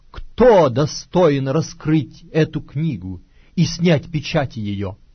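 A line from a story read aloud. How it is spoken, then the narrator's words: Loud proclamation. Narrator (Russian): ангела сильного, провозглашающего громким голосом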